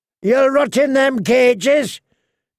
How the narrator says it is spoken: his captor was shouting

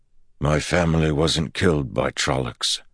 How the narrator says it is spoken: Perrin said softly

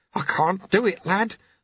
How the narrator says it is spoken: the sweeper mumbled

